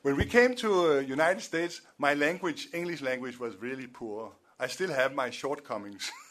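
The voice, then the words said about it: Strong foreign accent in English. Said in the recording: “I know that my accent is a little bit like Arnold Schwarzenegger”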